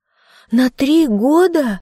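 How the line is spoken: Exclamation. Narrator (Russian): воскликнула Грация

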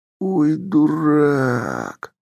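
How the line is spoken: Drawn-out exclamation. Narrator (Russian): Протянул я

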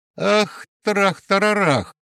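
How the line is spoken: Shriek. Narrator (Russian): Надя взвизгнула

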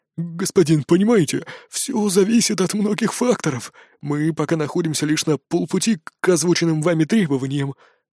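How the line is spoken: Barely audible mumble. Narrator (Russian): промямлил он еле слышно

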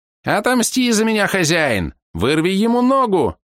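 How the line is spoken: Frantic squeaking. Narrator (Russian): неистово запищал паучок

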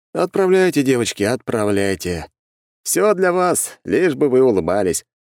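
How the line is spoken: Chuckling. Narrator (Russian): хмыкнул я

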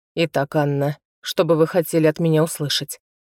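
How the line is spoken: Unruffled, composed. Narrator (Russian): сказал он невозмутимым тоном

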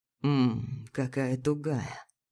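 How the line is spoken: Murmuring. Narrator (Russian): бормочет

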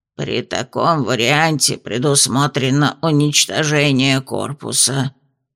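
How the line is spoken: Hollow muffled voice. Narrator (Russian): глухо сказала горгулья

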